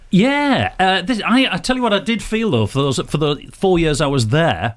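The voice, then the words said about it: Northern English Teesside accent. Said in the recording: “Not only is it a Northern accent, it's a Teesside accent.”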